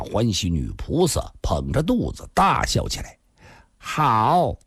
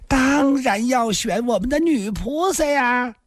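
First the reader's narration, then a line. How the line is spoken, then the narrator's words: Giggling. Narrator (Chinese): 游龙生笑嘻嘻说道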